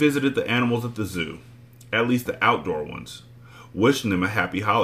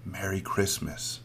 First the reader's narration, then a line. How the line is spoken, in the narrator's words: Maniac whispered